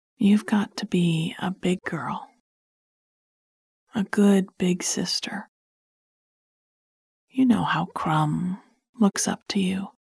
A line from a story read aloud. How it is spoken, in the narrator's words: I said, leaning down to talk quietly to her